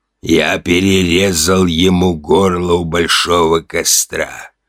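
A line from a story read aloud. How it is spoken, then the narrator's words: Creaky old voice. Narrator (Russian): проскрипел старческий голос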